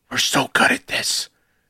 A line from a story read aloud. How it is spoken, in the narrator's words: whisper